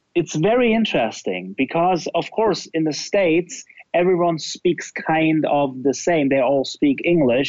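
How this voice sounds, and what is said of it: German-accented English. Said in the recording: “only because I'm German, it's already different... You hear it from the first sentence of my accent that it's different”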